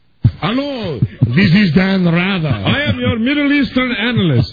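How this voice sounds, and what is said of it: Fake foreign accent. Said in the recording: “using a fake foreign accent”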